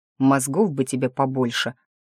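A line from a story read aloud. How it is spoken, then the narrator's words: Grumbling. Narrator (Russian): бурчал Николас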